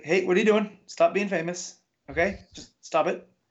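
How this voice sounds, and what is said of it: Soft, friendly put-on New Zealand accent. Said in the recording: “the New Zealand accent is so soft and pleasant, mm-hmm. right, and friendly”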